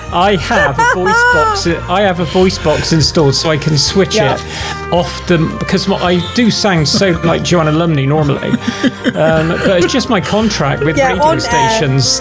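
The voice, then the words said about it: Bristolian accent. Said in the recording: “putting on a Bristolian accent every time I come on ... BCFM”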